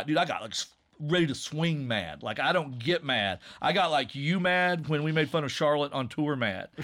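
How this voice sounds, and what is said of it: Usual voice. Nothing is said of it.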